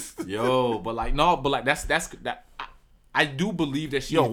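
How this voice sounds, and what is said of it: Usual voice. Nothing is said of it.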